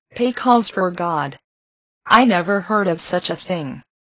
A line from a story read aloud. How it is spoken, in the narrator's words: she exclaimed